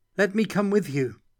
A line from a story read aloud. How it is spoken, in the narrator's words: Katerina called out